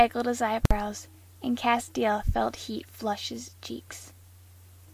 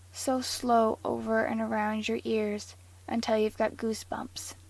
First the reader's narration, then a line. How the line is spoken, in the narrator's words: Dean said, his voice pitched low